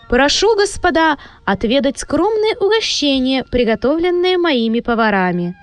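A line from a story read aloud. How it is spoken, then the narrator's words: Loud, echoing proclamation. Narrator (Russian): Голос графа, и без того громко звучащий под сводчатыми потолками, еще более усиливался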